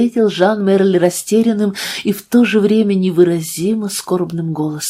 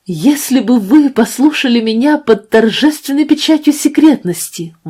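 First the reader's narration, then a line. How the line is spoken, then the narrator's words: Exclaimed. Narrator (Russian): воскликнул Жан Мерль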